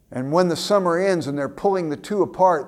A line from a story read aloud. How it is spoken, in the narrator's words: the young boy yells out to the young girl